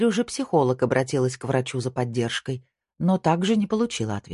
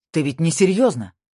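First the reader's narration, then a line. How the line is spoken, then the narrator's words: Frantic exclamation. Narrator (Russian): вне себя воскликнул Марк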